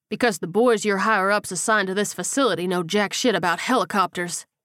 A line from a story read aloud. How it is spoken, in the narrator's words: Paul said gruffly